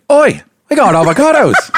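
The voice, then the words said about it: Put-on New Zealand accent, high-pitched. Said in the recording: “you could still do the accent... New Zealand... their accent is very specific, but it's pretty much like Australian... it can be Australian... they're all more high-pitched voices... Why are you so good at that?”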